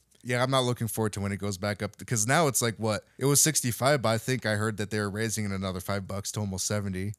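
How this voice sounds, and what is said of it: Strained voice giving out. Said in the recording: “my voice is suddenly giving out right now”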